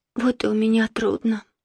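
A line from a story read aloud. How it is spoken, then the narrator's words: Sighing. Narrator (Russian): вздохнула Марина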